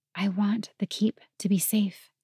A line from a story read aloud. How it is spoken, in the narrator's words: whispered